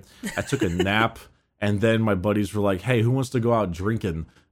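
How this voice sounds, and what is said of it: Hoarse, worn-out voice. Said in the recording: “My voice is still shot from that for 4 hours of raiding nights ... My voice was so Kris Kringled after the thing yesterday”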